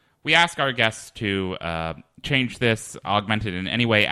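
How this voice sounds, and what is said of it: Usual voice. Nothing is said of it.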